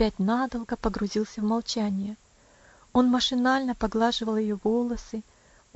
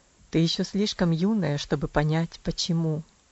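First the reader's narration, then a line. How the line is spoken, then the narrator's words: Sad reply. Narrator (Russian): ответил он тем же печальным тоном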